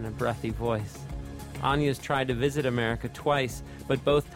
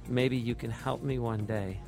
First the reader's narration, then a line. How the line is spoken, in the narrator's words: purrs